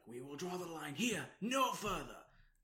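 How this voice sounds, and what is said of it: Poor imitation of another person's voice. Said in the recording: “That was my Patrick Stewart accent. ... That was really bad.”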